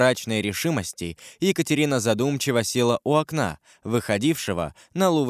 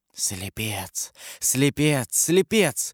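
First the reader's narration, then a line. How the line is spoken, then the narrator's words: Whispered. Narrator (Russian): прошептала Екатерина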